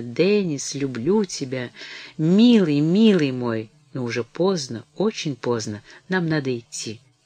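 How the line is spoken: Faint half-conscious whisper. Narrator (Russian): Мэри, наполовину придя в себя, шепнула чуть слышно

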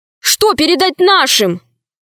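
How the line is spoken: Shout. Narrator (Russian): крикнул Удалов

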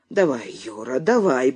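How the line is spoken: Urgent muttering. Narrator (Russian): бормотал Стась

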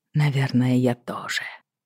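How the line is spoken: Muttered. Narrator (Russian): пробормотал он

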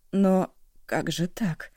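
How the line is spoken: Confused whisper. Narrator (Russian): растерянно прошептала Шоси

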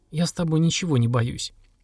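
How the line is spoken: Quiet, through swollen lips. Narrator (Russian): улыбнулась, с трудом растягивая распухшие губы, тихо сказала

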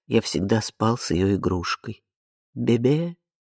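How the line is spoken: Quiet. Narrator (Russian): Ари тихо говорит

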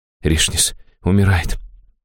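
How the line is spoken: Barely audible breath. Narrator (Russian): чуть слышно выдохнула чародейка

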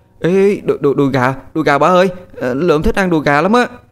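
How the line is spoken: Happy shout, child. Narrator (Vietnamese): Lượm nó hét lên sung sướng

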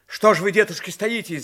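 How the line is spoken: Shouted. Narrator (Russian): закричал Иван Кузьмич

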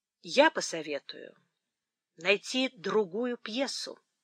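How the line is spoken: Calm. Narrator (Russian): спокойно сказал Эдмунд

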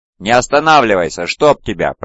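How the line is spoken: Furious growl. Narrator (Russian): прорычал Кесарон, с характерным непостоянством, мгновенно впавший в ярость

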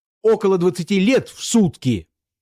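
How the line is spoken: Shouting. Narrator (Russian): закричал Бобров

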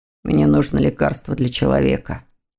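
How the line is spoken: Muttered. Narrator (Russian): пробормотал Лефевр

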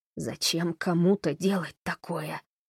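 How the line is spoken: Dull, hollow question. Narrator (Russian): глухо спросила она

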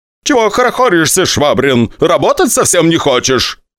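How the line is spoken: Shouting. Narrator (Russian): кричал Игорь Витальевич

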